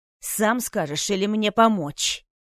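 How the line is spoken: Furious growl. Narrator (Russian): с бешенством прорычал иллюзионист

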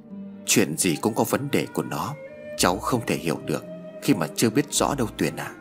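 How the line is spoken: Soft sobbing. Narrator (Vietnamese): Bà khẽ nấc lên

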